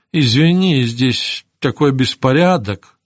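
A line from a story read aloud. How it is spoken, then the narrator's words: Apologetic excuse. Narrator (Russian): стала оправдываться она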